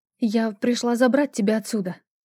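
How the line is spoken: Breaking voice, sobbing. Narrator (Russian): Мой голос сорвался, и я разрыдалась

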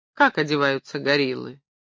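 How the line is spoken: Amused snort. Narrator (Russian): Стефания хмыкнула

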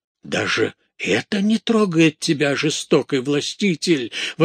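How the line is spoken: Monk exclaiming. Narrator (Russian): воскликнул монах

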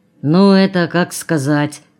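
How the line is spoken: Muffled dull reply. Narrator (Russian): ответил глухо второй

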